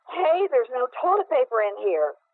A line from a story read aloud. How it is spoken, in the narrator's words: yelled loudly